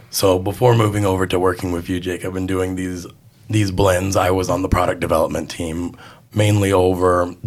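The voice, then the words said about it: Hoarse, sick-sounding voice. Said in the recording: “Please excuse my voice. I've been sick for the past 2 weeks.”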